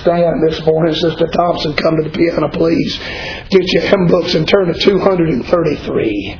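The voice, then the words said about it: Worn-out, nearly lost voice. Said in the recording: “My voice is about gone”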